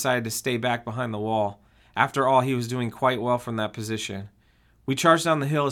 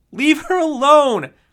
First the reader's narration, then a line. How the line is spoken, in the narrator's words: screamed at her in fury